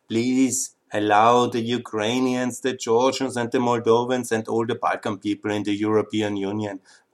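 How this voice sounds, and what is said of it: Austrian accent in English. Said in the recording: “my Austrian accent”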